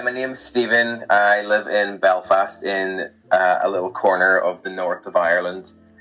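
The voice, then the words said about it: Northern Irish accent. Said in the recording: “what's that accent?”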